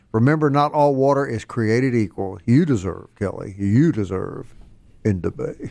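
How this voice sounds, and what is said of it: Announcer-style radio ad voice. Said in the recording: “my radio voice ... You turned into that.”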